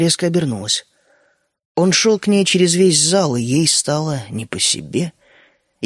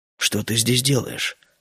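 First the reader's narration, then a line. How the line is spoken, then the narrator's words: Soft, indifferent question. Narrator (Russian): спросил он мягко и совершенно равнодушно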